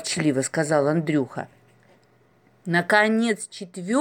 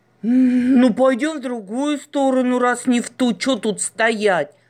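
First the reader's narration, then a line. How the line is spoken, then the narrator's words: Grumbling. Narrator (Russian): проворчал Андрей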